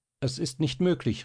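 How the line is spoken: Breathless calling out. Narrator (German): rief Marie, der es den Atem zu versetzen begann

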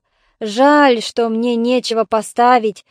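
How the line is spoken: Giant's sigh. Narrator (Russian): вздохнул великан

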